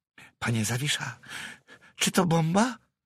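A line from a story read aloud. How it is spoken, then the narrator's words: Quiet question. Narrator (Polish): zapytał cicho Pawełek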